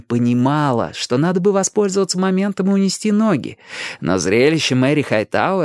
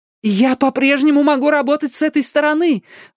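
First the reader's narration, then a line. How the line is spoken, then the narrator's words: Exclamation. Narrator (Russian): воскликнула Мэри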